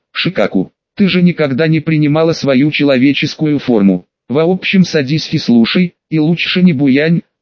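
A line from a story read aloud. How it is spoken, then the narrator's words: Plain. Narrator (Russian): сказала Шикаку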